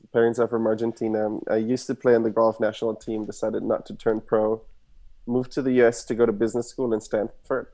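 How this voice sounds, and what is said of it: German accent. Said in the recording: “I was born and raised in Germany, as you can hear my accent.”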